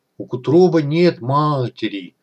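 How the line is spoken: Sad moan. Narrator (Russian): грустно простонал Акто

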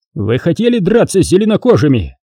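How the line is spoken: Barked. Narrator (Russian): рявкнул на них Эрих

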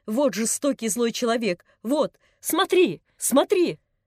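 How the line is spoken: Old man shouting. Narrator (Russian): дедушка закричал

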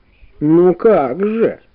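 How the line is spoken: Grandmother grumbling. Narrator (Russian): заворчала бабушка

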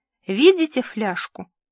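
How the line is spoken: Very calm question. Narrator (Russian): очень спокойно спросила Эльза

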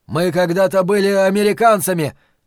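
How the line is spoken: Shouted at last. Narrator (Russian): наконец крикнул Уитни

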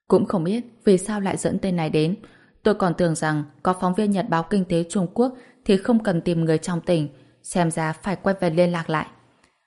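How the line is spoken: Deep quiet sigh. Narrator (Vietnamese): Kiều San San thở dài sâu kín

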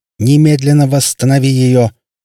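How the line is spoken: Yelling. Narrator (Russian): заорал Трелони

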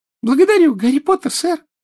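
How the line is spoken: Joyful squeak. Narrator (Russian): радостно пискнул Добби

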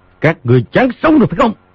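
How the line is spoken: Loud booming shout. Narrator (Vietnamese): ánh vàng chớp chớp, cao giọng quát

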